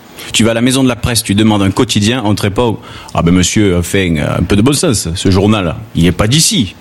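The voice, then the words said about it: Southern French Gard accent. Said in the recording (French): “toi tu as l'accent du Gard ... Quand je parle avec mon accent, à Marseille, on me prend pour un paysan, tout droit sorti d'un roman Pagnol”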